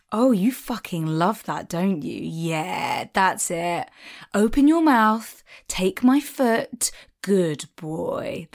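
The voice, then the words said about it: Cheeky, sensual, patronizing dominant voice. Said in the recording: “dom voice ... really cheeky and like kind of like sensual ... quite patronizing ... Smarmy”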